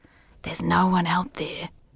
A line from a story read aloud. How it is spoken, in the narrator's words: whispered the voice